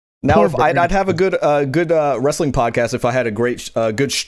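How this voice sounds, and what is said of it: Stumbling, stuttering speech. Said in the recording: “I'm stuttering. I'm stuttering.”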